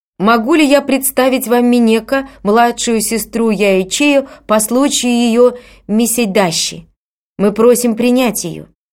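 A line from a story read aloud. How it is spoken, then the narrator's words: Loud announcement. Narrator (Russian): одевальщик громким голосом объявил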